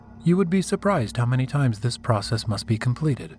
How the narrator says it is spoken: she said in a flat tone

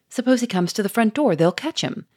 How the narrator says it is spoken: cried Victor

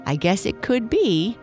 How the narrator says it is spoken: Lucy said, laughing

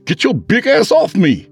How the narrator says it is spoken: he pleaded

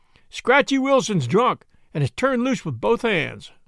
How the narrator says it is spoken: He cried

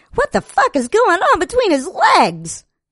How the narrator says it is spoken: Another cried out

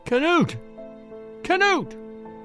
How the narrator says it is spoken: she screamed in terror

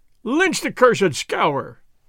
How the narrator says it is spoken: they cried

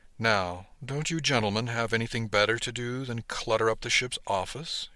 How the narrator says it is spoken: suggested dryly

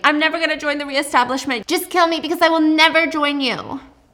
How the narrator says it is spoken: she's just screaming

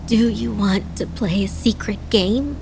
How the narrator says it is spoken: Adana asked, her voice raspy

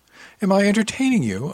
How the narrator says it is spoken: asked with a chuckle

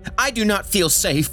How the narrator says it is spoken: the woman shouted

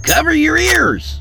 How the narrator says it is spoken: he hollered

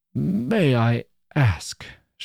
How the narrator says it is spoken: she faltered out

